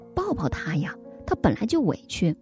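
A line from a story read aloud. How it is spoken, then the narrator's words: Quiet murmur. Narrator (Chinese): 旁边的家长有人小声说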